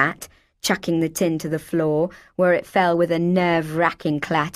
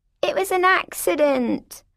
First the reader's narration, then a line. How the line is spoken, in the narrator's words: I whined untruthfully